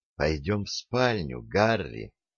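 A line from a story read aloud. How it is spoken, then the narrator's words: Tender whisper. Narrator (Russian): нежно прошептала она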